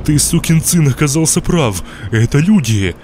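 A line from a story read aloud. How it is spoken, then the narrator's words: Joyful shout. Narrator (Russian): радостно крикнул он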